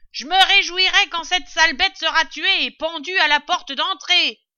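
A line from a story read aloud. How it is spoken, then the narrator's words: Shouted. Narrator (French): criait-elle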